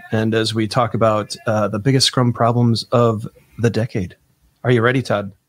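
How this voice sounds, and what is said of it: Smooth, soothing radio-announcer voice. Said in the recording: “I'm working on my NPR voice. It's smooth and soothing.”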